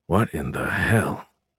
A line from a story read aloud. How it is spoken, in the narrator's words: Beckham whispered